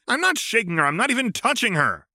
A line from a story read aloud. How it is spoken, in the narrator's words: Karkat barked